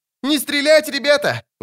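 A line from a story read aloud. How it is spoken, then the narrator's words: Full-voiced shout. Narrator (Russian): во весь голос заорал Лютик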